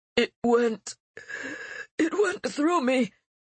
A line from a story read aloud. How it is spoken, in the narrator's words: gasped the pilot, disoriented